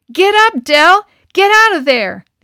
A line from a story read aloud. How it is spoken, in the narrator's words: the other boys yelled